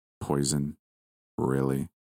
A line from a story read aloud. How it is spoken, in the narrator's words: He spoke in a disappointed tone